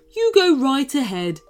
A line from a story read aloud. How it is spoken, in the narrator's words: chuckled the shark